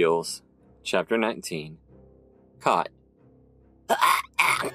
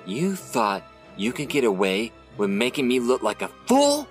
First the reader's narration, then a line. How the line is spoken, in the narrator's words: Sleek snarled